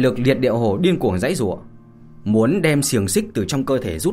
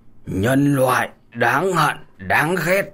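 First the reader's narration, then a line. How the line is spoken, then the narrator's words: Loud laughing. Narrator (Vietnamese): đằng hồ cũng không nhịn được mà cười lớn nói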